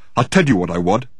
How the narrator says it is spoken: said Dirk, fiercely but hopelessly

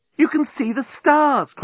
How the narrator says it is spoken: cried Nettie

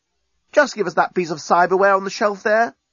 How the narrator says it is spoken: cried Corporal Gull Hollywell

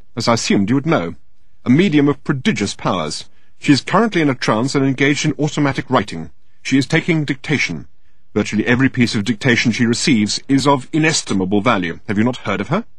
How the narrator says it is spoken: said Standish a little crossly

